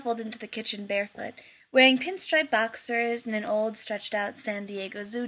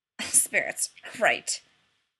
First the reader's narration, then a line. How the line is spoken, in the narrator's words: Rodney snorted